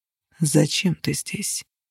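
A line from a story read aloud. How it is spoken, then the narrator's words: Deliberately soft, even. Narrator (Russian): Он спросил это нарочито мягко, не пропустив ни единой ноты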